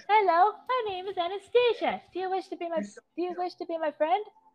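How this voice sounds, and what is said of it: Polite childlike British accent. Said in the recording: “he also has a British accent ... just this adorable, polite little Galarian ponita”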